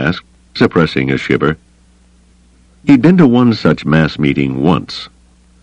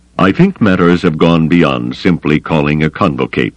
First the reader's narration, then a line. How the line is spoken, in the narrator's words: Thrawn said coldly